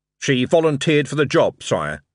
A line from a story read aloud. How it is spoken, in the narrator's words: said Vimes